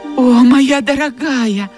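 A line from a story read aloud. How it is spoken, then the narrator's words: Exclaiming, bursting into sobs. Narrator (Russian): воскликнула Мелли и разрыдалась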